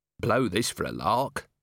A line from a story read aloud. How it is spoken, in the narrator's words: muttered Vimes